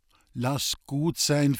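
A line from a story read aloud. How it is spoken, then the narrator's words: Calm interjection. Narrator (German): fiel Lisbeth ruhig ein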